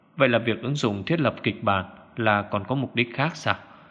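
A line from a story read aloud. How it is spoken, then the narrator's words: Lowered, puzzled voice. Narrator (Vietnamese): Dư Tô khẽ nhíu mày hạ giọng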